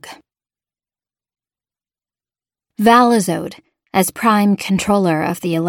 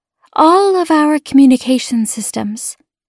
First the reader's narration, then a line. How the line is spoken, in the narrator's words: Lekalid said softly